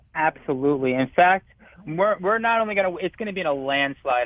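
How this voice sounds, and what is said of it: Enthusiastic, excited delivery. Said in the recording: “hear the enthusiasm in my voice.”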